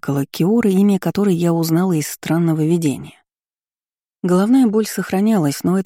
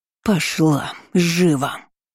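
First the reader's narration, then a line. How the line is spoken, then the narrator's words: Woman's hiss. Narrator (Russian): зашипела тетка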